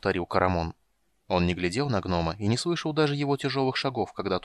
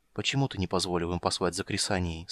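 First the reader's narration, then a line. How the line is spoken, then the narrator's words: Gentle question. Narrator (Russian): спросил он мягко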